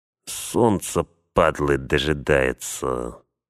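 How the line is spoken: Through gritted teeth. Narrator (Russian): процедил один из охранников

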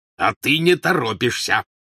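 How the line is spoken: Growled. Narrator (Russian): прорычал Вернон Дурсль

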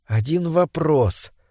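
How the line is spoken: Muttering. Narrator (Russian): бормотал Дэвид

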